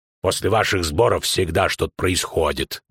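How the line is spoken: Gruff mutter. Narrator (Russian): буркнул банкир

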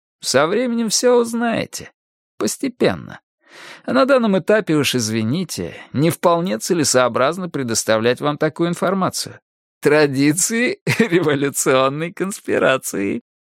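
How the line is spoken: Giggling. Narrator (Russian): повторил он, хихикнув

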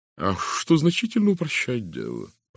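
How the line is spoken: Cooing. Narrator (Russian): проворковал адвокат

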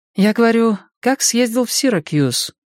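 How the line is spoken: Sighing. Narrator (Russian): Он вздохнул

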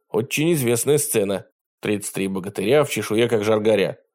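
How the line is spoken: Tired grumble. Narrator (Russian): проворчал Костя, который как-то подустал от неожиданностей

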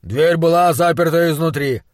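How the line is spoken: Grumbled. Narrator (Russian): пробурчал Бернс

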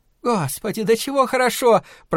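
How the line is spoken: Moaning. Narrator (Russian): простонала она

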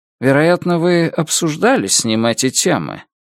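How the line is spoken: Lecturing professorial tone. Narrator (Russian): Профессор говорит профессорским тоном

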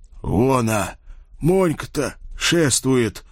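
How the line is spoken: Hoarse choked whisper. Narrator (Russian): сглотнув ком в горле, хрипло прошептал Шлема

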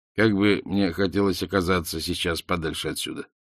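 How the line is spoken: Muttered. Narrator (Russian): пробормотал он

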